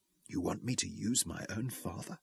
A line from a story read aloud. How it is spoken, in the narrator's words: She whispered, horror blending with fresh horror in her eyes